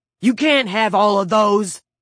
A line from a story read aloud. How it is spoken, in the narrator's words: Motorcycle Boots shouted